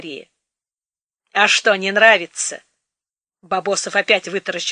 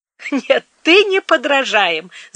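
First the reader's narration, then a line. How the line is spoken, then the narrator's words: Laughing. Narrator (Russian): засмеялась Мария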